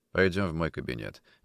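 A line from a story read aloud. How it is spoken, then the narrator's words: Dry, curt. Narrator (Russian): сухо сказал Никитин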